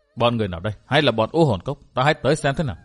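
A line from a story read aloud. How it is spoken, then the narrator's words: Muttering. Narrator (Vietnamese): Thạch Kiếm Cửu lẩm bẩm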